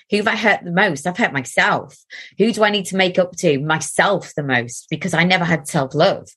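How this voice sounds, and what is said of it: Soft Geordie accent. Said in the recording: “you have my favourite accent in the whole of the world ... are you called a Geordie? ... I'll sound more Geordie now that I'm talking about it ... So it's a bit softer”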